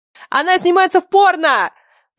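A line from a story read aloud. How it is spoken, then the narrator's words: Excited shout. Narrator (Russian): прокричала я, подпрыгивая на месте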